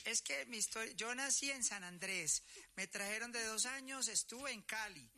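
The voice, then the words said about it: Colombian paisa accent. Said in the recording (Spanish): “Pero sus papás tienen que ser paisas, pues, porque con ese hablaba... ¡Paisa!... A mí se me pegan todos los acentos.”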